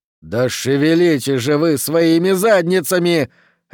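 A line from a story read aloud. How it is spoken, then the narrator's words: Barked. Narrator (Russian): рявкнул Хорлокер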